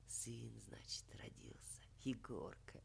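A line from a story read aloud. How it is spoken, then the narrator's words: Quiet musing to himself. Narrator (Russian): Тихо рассуждал он сам с собою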